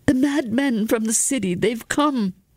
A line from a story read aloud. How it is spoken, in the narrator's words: Atten cried in a cracked voice